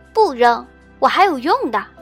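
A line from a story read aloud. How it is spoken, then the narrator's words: Calling out. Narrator (Chinese): 默默叫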